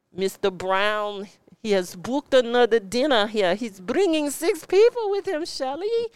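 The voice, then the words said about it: Poor imitation of French accent. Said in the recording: “that didn't sound anything like a French accent”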